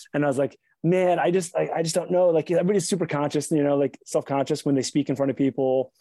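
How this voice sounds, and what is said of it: East Coast American accent. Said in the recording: “I'm from Baltimore. I just sort of have like this East Coast accent.”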